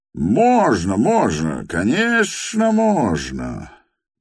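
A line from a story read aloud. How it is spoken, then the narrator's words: Loud cheerful shout. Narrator (Russian): Громко и весело крикнул сам Петр Степанович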